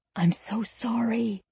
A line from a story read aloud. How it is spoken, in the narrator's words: I whispered